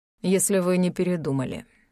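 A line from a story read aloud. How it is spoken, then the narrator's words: Gloomy. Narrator (Russian): мрачно сказал Биркхир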